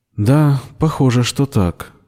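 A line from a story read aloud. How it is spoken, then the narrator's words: Disappointed sigh. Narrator (Russian): разочарованно вздохнула Бердина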